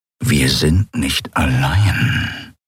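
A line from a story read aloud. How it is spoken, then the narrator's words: Growling. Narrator (German): knurrte er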